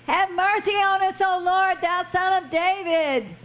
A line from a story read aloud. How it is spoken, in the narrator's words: cried the more, saying